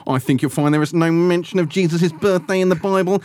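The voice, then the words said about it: Impression of Guy Pearce's Scrooge. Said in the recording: “your impersonation of Guy Pearce's version of Scrooge is actually remarkably accurate ... I was going to mention his accent”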